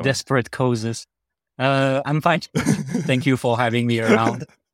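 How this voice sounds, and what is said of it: Heavy French accent. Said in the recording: “the heavy French accent”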